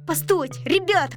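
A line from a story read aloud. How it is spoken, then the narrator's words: Shouting. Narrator (Russian): кричал Мишка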